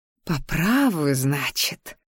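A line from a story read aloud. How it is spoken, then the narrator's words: Silent inner growl. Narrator (Russian): прорычала я мысленно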